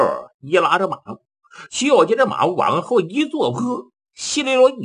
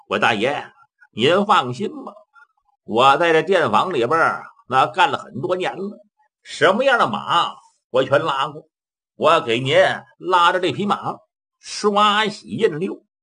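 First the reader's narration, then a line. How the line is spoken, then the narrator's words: Smiling. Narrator (Chinese): 张六一笑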